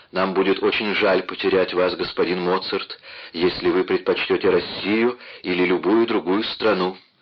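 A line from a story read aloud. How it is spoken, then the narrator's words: Plain. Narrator (Russian): сказал он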